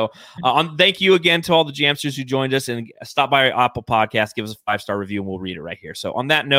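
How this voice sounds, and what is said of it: Usual voice. Nothing is said of it.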